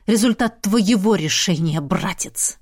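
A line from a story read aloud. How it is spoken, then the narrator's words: Hiss. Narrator (Russian): прошипел я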